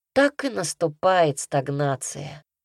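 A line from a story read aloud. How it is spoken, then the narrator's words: Sigh. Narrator (Russian): вздохнул я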